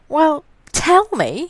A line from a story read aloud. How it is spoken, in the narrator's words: pleaded